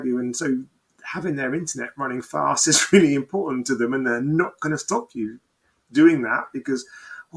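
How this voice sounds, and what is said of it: UK English accent. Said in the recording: “you've got a UK accent”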